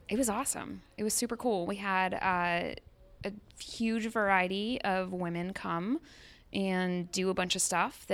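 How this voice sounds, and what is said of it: Speaks with a noticeable accent. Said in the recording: “I just want you guys to hear her accent”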